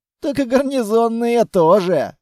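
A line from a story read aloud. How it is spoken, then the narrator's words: Laughing loudly. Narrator (Russian): захохотал Грязный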